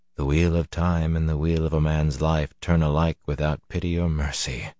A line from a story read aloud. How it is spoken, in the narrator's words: Luz Theron murmured